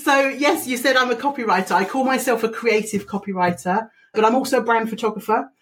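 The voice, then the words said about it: Distinct accent. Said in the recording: “that fabulous accent that you have”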